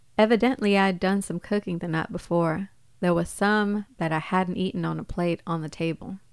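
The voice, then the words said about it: Put-on accent while quoting. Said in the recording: “Nice accent.”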